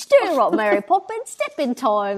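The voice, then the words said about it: Bad fake British accent. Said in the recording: “every American's go-to like bad British accent”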